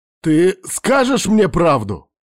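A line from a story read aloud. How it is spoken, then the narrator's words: Sudden shout. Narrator (Russian): вдруг закричал я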